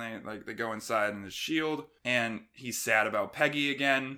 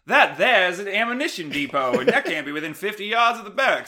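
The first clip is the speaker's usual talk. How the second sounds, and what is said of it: Captain America with transatlantic accent. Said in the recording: “I don't know why I give Cap like a transatlantic accent.”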